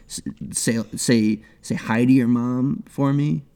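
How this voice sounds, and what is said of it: Bad Boston accent. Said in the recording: “my bad Boston accent ... in a Bostonian accent”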